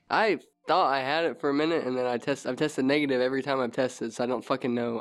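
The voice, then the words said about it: Congested, snuffy nasal voice. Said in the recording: “You sound like a little bit snuffy ... it's all in my nose is fucked up, my throat's fucked up”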